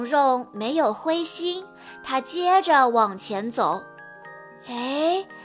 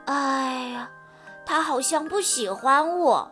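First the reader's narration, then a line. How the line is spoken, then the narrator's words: Disappointed sigh. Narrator (Chinese): 蓉蓉失望地叹了口气，说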